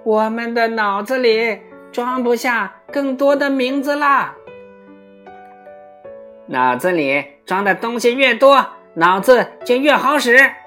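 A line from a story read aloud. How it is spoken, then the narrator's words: Young geese calling. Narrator (Chinese): 小雁们叫道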